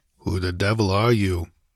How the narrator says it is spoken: he muttered

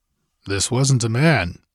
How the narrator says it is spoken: grunted Conan

